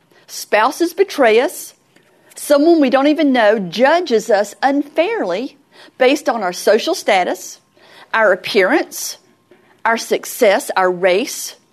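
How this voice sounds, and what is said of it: Southern American accent. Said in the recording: “that accent. Well, my accent used to be a lot worse than it is now. But I was judged as ignorant because I had a very deep southern accent. Still never got rid of it”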